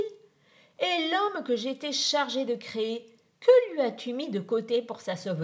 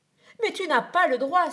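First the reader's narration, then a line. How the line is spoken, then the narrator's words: Frightened brother exclaiming. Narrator (French): s'écria son frère effrayé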